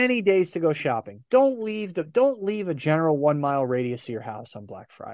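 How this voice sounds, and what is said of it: Usual voice. Nothing is said of it.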